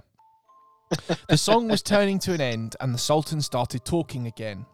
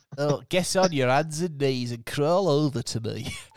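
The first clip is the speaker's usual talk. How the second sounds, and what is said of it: Sultan character voice from Aladdin. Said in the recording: “I'm going to do a different Sultan voice. ... do it from the Sultan like Aladdin”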